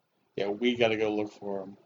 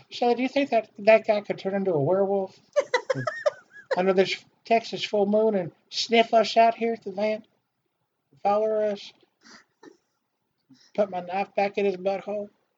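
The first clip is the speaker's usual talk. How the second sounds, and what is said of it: Creepy impression of Franklin. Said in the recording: “Your impression of Franklin is really fucking creepy.”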